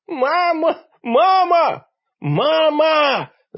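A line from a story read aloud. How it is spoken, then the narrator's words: Four voices yelling together. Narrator (Russian): заорали все мы 4 в один голос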